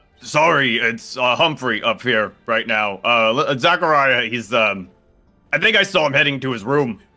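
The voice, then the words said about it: Performs another character's voice. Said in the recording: “That is a dreadfully good impression”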